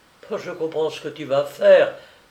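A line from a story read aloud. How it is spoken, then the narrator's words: Exclaimed. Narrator (French): s'écria-t-elle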